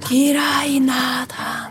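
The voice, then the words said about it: Rapt, whispered line. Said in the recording (Hungarian): “átszellemülten suttogta”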